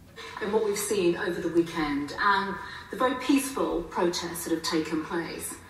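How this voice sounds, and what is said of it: Well-spoken woman, London Estuary accent. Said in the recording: “she's quite well spoken, but she's got a bit of an accent ... it's a kind of it's a Londonish accent. It's a, I think what's known as Estuary”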